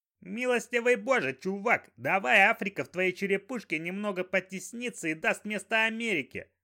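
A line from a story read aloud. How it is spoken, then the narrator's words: Yelling. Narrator (Russian): заорал Лопух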